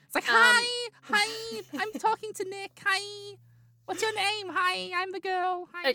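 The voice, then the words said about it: Put-on voice of a girl. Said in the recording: “I don't sound like that ... doing a really bad impersonation”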